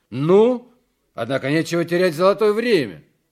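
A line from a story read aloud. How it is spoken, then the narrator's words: Loud. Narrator (Russian): громко говорит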